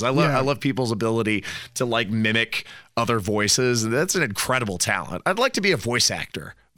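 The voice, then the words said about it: Rough, sick-sounding voice. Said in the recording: “my voice is all screwed up with the cold”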